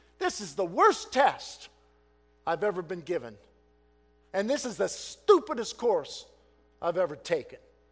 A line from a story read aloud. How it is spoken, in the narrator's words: Finally, reaching the boiling point, exclaimed